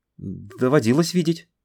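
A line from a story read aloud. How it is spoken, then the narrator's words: Babbling. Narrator (Russian): Залепетал наш хозяин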